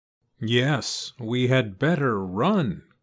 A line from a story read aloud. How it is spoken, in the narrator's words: cried Goosey Lucy